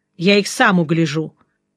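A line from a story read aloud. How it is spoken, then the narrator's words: Wry grunt. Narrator (Russian): хмыкнул Жеглов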